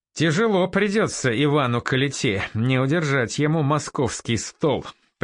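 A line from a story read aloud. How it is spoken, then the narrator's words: Habitual chuckle. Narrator (Russian): привычно хохотнул Батецкий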